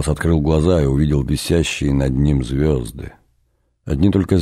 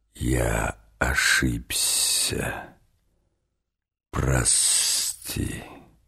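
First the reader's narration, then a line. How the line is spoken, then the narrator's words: Vast hissing whisper. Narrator (Russian): кто-то незримый, но все равно очень большой, как само небо, как невиданное до сих пор море, сказал ему свистящим шепотом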